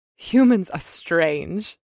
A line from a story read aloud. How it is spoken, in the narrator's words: she giggled